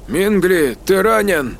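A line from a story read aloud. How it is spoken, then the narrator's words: Hoarse, breathless question. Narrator (Russian): хриплым голосом спросил Рут, пытаясь отдышаться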